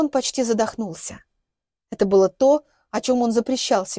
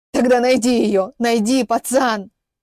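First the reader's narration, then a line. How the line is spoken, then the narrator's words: Hoarse shout. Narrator (Russian): хрипло крикнул вслед Яковлев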